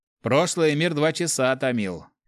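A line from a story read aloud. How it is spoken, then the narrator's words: Snorting. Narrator (Russian): хмыкнул кто-то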